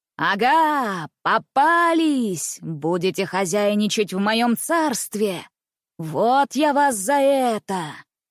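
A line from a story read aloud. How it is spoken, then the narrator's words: Sepulchral hollow voice. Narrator (Russian): Гробовым голосом произнес неизвестный посетитель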